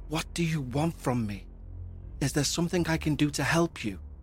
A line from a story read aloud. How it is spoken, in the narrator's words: finally whispered